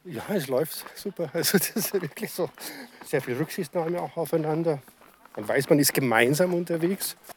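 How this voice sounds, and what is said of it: Regional German dialect. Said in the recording (German): “man hört es am Dialekt”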